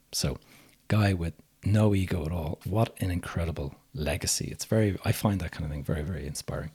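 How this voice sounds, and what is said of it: Slightly hoarse voice. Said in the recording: “my voice is a little bit kind of hoarse today”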